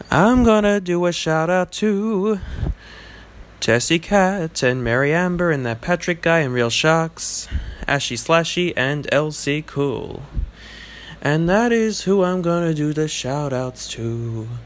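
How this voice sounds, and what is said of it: Crooning jazz-singer style voice. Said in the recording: “Let me do the shout-outs in a very special way... I sound like a jazz singer of some sort.”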